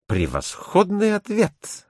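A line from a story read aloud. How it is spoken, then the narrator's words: Enthusiastic exclamation. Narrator (Russian): воскликнул с увлечением Мишель Ордан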